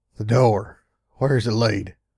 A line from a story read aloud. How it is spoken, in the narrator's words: My voice sounded annoyingly choked up